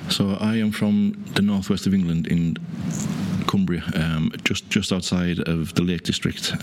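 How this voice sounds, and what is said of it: Cumbrian English accent with twang. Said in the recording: “I'm always being accused of being Irish. No, that there's a twang there ... I still have that Cumbrian twang.”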